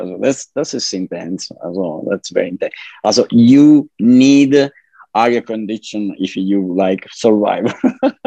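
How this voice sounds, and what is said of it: Italian accent. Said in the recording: “that beautiful accent that you have, you're not from the States. You were born in Italy, in Sicily”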